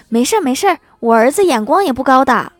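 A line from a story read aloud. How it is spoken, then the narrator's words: Older woman, hurried. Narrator (Chinese): 大妈急忙说道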